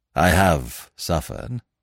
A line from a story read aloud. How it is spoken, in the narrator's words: said Smith gravely